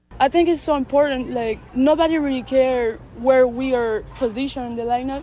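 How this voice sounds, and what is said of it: French accent speaking English. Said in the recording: “French accent ... She's learned English pretty well.”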